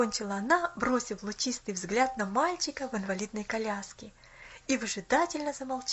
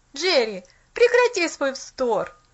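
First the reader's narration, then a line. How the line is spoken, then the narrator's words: Annoyed exclamation. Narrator (Russian): С досадой воскликнул он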